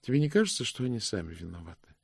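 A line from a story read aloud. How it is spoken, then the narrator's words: Asked tenderly. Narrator (Russian): спросила госпожа Ласка нежно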